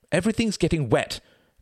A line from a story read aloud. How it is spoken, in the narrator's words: cried Reginald